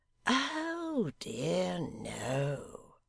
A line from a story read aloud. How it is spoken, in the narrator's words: said Gashford sweetly